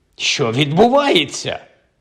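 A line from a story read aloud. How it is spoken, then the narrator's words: Panicked shout in unison. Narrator (Ukrainian): в один голос вигукнули охоплені панікою Майкл та Кальцифер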